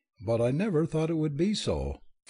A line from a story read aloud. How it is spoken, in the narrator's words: faltered, blowing her nose, sniffling, with all the unlovely awkwardness of hard-fought grief